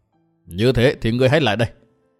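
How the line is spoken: Cold. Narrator (Vietnamese): Dương Văn Nghiêu lạnh lùng bảo

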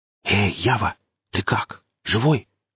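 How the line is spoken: Whisper. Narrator (Russian): прошептал Гриф

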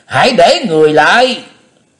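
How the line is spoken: Loud shout. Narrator (Vietnamese): Tâm Tâm đại sư lớn tiếng quát tháo

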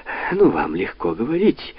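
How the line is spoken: Unabashed exclamation. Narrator (Russian): воскликнула сеньора Табуссо, ничуть не смутившись

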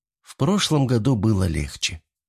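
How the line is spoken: Sighed. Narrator (Russian): вздохнула Вероника

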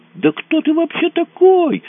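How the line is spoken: Shouting in face. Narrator (Russian): закричала она Мазуру в лицо

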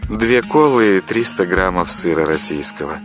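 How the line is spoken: Languid voice. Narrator (Russian): томным голосом произнесла кассирша

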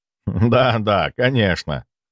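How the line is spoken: Laughing. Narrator (Russian): рассмеялся я

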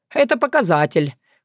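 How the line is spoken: Wry snort. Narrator (Russian): хмыкнул Филипп

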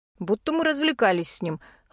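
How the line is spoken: Snort. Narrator (Russian): хмыкнул Пит

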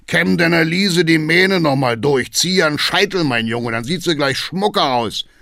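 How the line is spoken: Booming call. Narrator (German): ruft Hackendahl dröhnend

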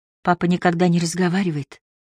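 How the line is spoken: Whispered. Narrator (Russian): прошептала она

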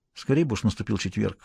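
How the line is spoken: Quiet. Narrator (Russian): негромко сказала Стефи

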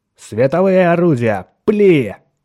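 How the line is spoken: Barked command. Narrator (Russian): рявкнул Меррик

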